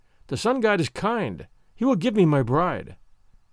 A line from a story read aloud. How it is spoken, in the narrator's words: cheerfully, saying to himself